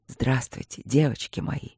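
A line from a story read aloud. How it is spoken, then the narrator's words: Passionate whisper. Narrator (Russian): горячо прошептал маг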